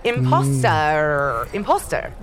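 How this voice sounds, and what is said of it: Very posh English accent. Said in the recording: “this is my real accent. I'm very posh, you see”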